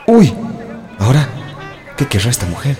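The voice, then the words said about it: A man's voice. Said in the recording (Spanish): “voz de hombre, la voz de”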